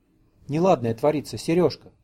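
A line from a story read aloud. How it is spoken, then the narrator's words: Soft, sorrowful. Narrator (Russian): проговорила мягко и горестно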